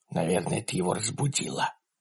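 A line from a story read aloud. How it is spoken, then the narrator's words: Whisper. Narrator (Russian): прошептал Ларри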